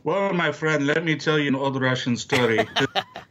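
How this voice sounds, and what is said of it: Put-on Russian accent. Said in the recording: “I can't do the whole thing with that accent.”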